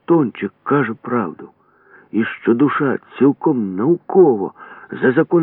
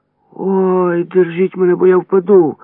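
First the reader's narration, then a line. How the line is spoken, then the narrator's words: Shouting in strange voice. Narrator (Ukrainian): не своїм голосом закричав Карафолька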